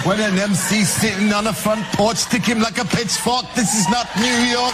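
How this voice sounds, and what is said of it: British accent. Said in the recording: “the British kind of accent”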